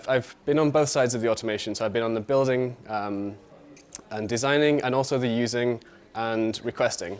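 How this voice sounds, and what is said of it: British accent. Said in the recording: “I'm from the UK, as you can tell from my accent”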